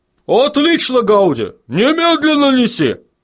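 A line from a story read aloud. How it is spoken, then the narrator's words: Barking. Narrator (Russian): рявкнул Бадони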